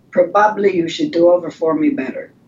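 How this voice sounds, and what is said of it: Put-on thick Polish accent. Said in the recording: “The teacher with the thick Polish accent ... I think your Polish accent is on point”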